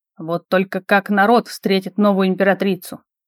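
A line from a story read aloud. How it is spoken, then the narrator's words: Father muttering. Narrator (Russian): пробормотал отец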